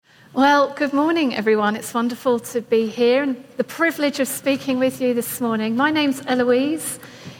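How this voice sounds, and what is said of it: English accent. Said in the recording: “I sound different. I'm from England.”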